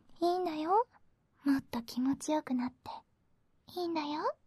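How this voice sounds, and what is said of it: Whispering close to the ear. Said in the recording (Japanese): “私が耳元でささやくと”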